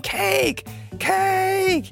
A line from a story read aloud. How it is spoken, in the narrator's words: battalion of kids screaming